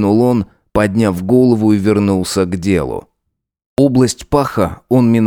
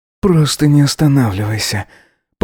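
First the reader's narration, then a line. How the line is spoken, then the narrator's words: Whimpering plea. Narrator (Russian): Попросил он, поскуливая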